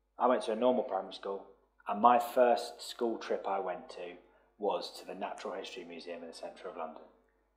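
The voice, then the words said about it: South London accent. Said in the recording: “as you can probably tell from my accent, not naturally from Morecambe. I grew up in South London.”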